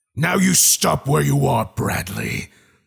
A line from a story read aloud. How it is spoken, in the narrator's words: the voice boomed like God